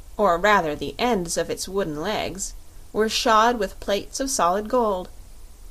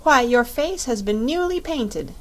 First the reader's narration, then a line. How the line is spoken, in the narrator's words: exclaimed Dorothy